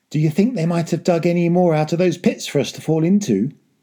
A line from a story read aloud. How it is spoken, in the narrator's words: asked